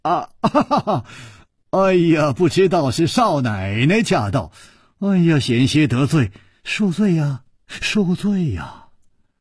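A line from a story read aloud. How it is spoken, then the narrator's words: Smiling. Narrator (Chinese): 楚留香微笑着说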